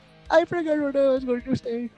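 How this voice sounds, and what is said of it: Put-on Indian accent. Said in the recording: “That's a great German accent. ... It was actually Indian.”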